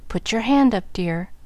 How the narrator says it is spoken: demanded the papa

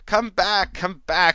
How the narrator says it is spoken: she choked

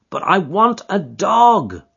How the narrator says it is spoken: cried

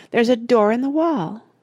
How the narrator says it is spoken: cried Charlie

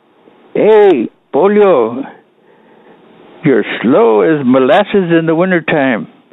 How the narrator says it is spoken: started yelling at me, saying

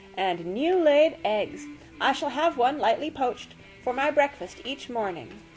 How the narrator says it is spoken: exclaimed

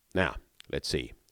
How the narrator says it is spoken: said Holmes

